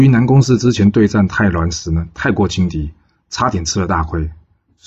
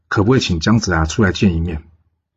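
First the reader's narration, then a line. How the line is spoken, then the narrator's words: Plain. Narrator (Chinese): 南宫氏说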